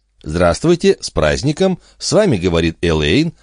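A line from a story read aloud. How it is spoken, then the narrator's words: Cheerful chirping. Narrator (Russian): радостно прощебетала телефонистка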